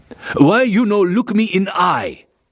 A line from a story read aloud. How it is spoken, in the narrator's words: the corporal roared